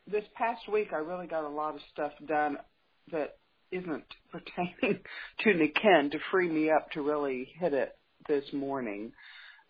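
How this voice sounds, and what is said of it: Sleepy-sounding voice. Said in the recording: “I sound a little sleepy.”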